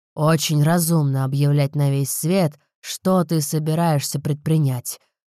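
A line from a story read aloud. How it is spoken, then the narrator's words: Grumble. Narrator (Russian): проворчал отец Розы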